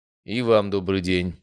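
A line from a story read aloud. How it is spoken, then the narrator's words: Dry, curt. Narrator (Russian): сухо сказал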